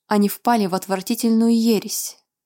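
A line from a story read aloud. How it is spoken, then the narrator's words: Icy tone. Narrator (Russian): ледяным тоном ответила Амадео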